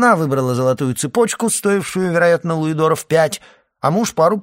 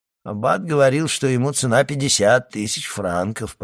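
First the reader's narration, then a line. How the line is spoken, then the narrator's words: Muttered. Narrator (Russian): пробормотал Кадрус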